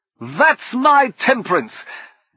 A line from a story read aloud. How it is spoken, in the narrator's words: Brummond shouted from the helm